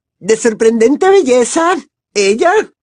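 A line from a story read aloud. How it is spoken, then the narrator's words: Shrieked. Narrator (Spanish): chilló Pansy Parkinson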